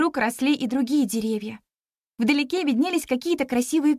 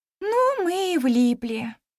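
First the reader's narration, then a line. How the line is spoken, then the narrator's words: Sigh. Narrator (Russian): вздохнула я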